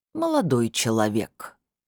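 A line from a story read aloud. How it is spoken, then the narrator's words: Reluctant drawl. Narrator (Russian): нехотя протянул лектор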